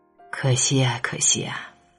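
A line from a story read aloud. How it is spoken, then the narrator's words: Regretful sigh. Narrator (Chinese): 很遗憾的眼神，叹息道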